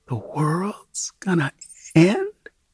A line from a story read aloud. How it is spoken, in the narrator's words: Tammy says in the tiniest possible voice